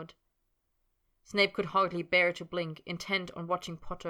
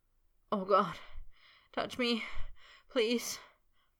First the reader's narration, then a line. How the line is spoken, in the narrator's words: Potter moaned